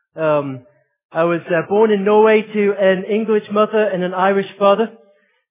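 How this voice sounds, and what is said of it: Mixed accent sounding Australian. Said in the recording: “my accent. It is a little bit confusing. ... acute accent confusion syndrome ... somehow got an Australian accent”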